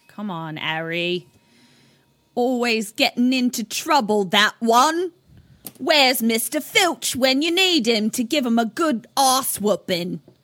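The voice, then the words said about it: Put-on accent, poorly done. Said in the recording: “That accent was off the rails before it started.”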